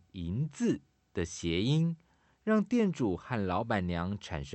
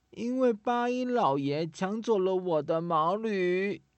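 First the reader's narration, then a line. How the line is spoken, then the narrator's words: Girl sobbing. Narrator (Chinese): 小女孩哽咽地说着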